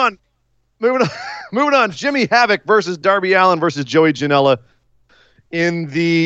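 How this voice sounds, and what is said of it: Usual voice. Nothing is said of it.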